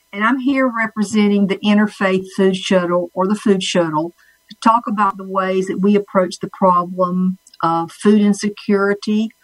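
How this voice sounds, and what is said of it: North Carolina Southern accent. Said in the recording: “my accent that I am born and raised in North Carolina, Red Springs, North Carolina”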